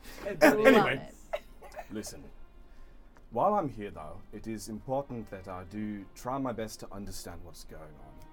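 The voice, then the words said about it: Put-on accent for a character. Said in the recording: “This character is mostly an excuse to try out this accent”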